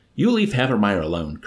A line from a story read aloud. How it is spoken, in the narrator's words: Colonel Korn ordered Yassarian curtly